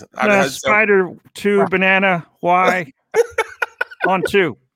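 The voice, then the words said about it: Uncertain-sounding imitation of another person's voice. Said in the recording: “I love the uncertainty in his voice. You can hear it in ... impersonation. There's like this sense of uncertainty”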